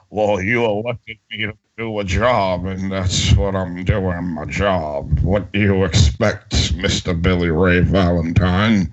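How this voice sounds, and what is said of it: Mitch McConnell impression, Bill Cosby-like. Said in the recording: “It sounds like Bill Cosby and Mitch McConnell had a child. That's what your impression sounds like.”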